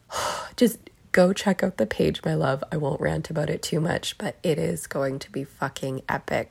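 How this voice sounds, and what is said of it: Strained, fading sick voice. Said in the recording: “I'm getting a little sick... I'm losing my voice”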